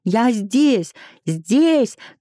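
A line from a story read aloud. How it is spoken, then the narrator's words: Shouting into phone. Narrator (Russian): кричала в трубку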